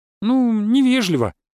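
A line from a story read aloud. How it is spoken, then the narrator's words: Girl's squeak. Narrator (Russian): пискнула девушка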